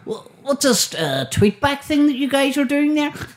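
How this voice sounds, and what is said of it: Imitates another person's voice. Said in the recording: “do a impression of them”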